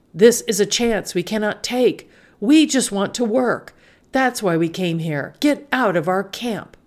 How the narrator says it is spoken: He yelled back

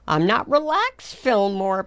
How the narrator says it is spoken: Poppleton cried

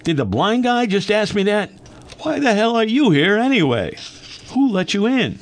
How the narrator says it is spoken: he blurted out

